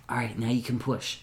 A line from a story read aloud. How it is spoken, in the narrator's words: whispers over to Harvey